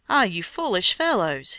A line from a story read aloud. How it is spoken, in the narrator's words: he cried